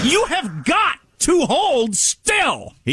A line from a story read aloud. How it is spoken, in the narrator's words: he yells at me